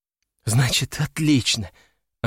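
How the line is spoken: Relieved exhale. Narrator (Russian): облегченно выдохнула

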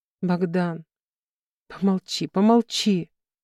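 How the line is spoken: Hoarse close whisper. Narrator (Russian): хрипко шепчет мне в губы

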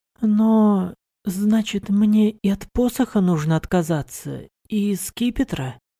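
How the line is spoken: Sad. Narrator (Russian): грустно произнесла она

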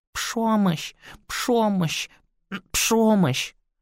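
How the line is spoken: Lisping, coughing children's chorus. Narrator (Russian): Детеныши мажоидов повторяли на разные лады, сухо покашливая и шепелявя

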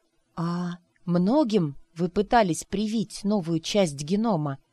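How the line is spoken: Hoarse whisper. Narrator (Russian): сипло прошептала

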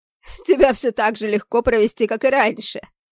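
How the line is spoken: Loud laughter. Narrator (Russian): хохотал преобразившийся Нумебус в обличии Оливера

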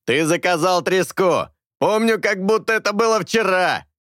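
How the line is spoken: Shout. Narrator (Russian): крикнул Хуан

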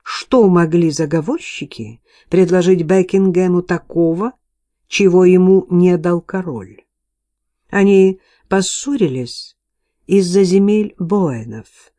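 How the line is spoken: Plain. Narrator (Russian): сказал Стэнли

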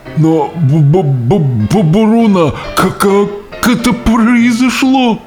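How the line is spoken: Stammering whisper. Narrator (Russian): Наконец, заикаясь, он прошептал

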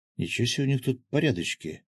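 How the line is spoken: Stunned mutter. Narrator (Russian): ошеломленно пробормотал Гензо

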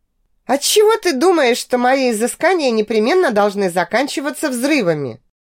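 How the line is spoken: Surprised. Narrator (Russian): удивилась

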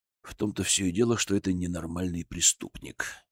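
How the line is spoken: Quiet remark. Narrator (Russian): негромко заметил Зотов

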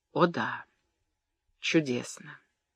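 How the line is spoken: Soft tender repetition. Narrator (Russian): Родольф, нежно глядя на Эмму, тихо повторил

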